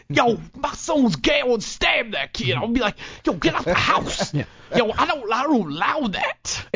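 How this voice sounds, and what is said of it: Imitates another person's voice. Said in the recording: “your best Tracy Morgan impression”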